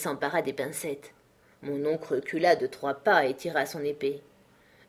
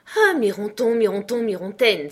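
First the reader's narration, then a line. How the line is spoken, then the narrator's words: Grandmother exclaiming. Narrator (French): s'écria ma grand-mère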